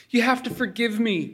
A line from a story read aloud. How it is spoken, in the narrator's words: she said in a pleading voice